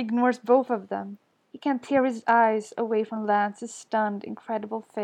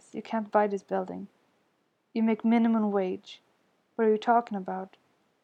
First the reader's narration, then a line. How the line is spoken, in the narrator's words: says Lance, his voice emotionless